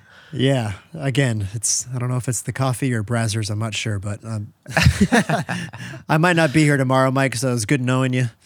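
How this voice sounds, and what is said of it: Hoarse, fading voice. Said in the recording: “I'm slowly losing my voice over here. ... I know. I hear it. I hear it.”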